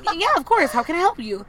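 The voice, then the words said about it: Valley girl customer service voice. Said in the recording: “customer service voice ... I'm from Detroit, but, you know, my customer service voice, she from the Valley”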